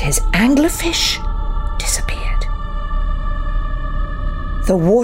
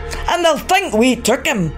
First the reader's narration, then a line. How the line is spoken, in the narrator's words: Macklebone cried